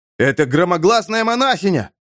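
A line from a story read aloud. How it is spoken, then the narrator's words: Shout. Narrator (Russian): крикнул кто-то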